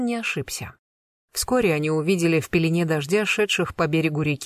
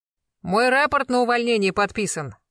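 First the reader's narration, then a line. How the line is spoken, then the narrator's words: Loud announcement from afar. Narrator (Russian): возвестил Блистанов громко еще издали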